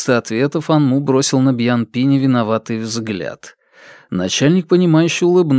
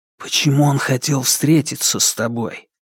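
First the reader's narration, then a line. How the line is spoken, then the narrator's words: Whispered question. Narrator (Russian): спросил шепотом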